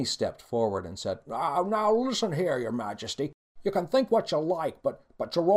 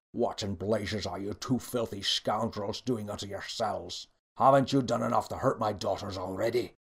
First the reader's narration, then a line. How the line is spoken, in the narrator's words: The king growled